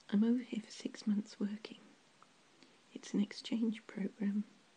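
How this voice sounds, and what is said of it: British accent. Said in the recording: “You seemed to notice my accent. ... And you asked if I was British. Yes, I am.”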